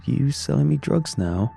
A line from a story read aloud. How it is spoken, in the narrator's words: Jason laughed